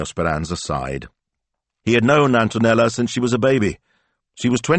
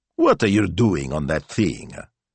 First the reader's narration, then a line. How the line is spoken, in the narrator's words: he asked crossly